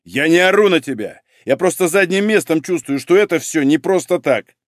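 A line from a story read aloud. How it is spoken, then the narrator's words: Barked shout. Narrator (Russian): гаркнул Малинин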